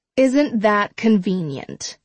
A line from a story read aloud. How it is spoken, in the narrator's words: Kate says